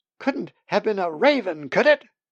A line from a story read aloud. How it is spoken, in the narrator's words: shrieked